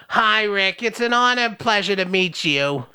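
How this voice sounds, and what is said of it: Old lady grandma voice. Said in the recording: “doing a different grandma voice ... Do that grandma voice ... You do the old lady like this”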